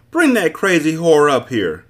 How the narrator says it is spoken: a stout woman yelled from a second-story window

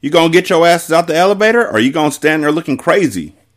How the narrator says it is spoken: Ari said urgently

